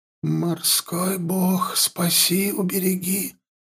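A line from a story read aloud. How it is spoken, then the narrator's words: Whispered prayer. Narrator (Russian): прошептала Ихтионка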